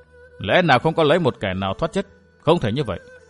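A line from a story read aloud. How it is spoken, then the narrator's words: Troubled mutter. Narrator (Vietnamese): Vân Thiên Nhạc chau mày, lẩm bẩm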